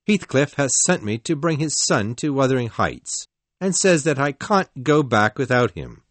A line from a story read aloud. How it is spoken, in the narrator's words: he said in a loud, angry voice